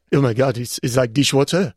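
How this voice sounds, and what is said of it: Imitates another person's accent. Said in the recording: “Have I got the accent right? ... Yeah, you do.”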